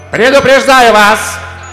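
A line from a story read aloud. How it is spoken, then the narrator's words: Queen shouting. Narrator (Russian): крикнула королева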